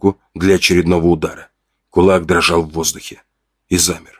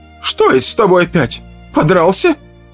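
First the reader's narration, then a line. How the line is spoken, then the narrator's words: Voice breaking, shrill. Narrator (Russian): начала она, и голос сорвался на высокой, визгливой ноте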